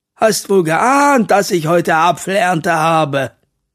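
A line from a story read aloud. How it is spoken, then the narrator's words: Laughing. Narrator (German): Mathilda lacht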